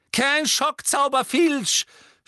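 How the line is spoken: Angry shout. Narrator (German): schrie Umbridge zornig

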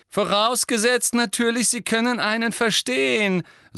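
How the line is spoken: Loud. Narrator (German): sagte Malfoy laut

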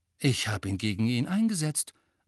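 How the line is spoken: Said calmly. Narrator (German): sagte Harry ruhig

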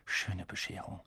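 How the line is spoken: Quiet. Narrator (German): sagte Harry leise

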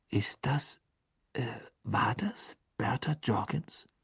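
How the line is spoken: Whispered. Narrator (German): flüsterte Harry

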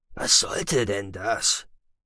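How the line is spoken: Quiet question. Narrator (German): fragte Moody leise

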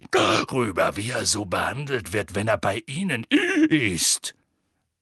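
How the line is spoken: Growl. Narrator (German): knurrte Moody

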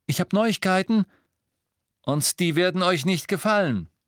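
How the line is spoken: Male calling. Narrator (German): rief er

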